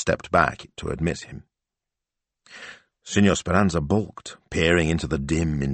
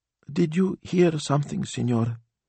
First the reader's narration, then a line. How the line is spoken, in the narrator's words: she asked